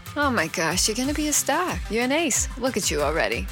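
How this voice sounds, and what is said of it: Accent drifting into Boston. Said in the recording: “My accent's trying to sway into Boston, so I better cut it out.”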